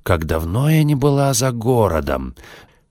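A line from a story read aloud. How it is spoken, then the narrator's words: Cheerful purring, surprised muttering. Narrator (Russian): Клаудия бодро мурчала себе под нос и иногда удивленно бормотала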